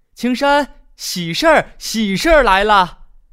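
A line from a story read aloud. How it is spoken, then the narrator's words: Excited distant shout. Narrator (Chinese): 村长刘大叔兴冲冲地老远就喊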